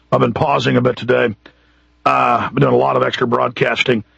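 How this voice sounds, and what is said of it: Raspy hoarse voice. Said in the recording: “my voice is a little more raspy than usual, I've got a sore throat today and a cough”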